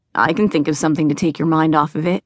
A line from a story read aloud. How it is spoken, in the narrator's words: said